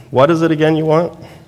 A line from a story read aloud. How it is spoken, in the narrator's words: he asked